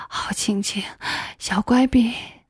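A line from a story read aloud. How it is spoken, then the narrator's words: Excited, panting. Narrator (Chinese): 他更加兴奋了，喘着粗气对我说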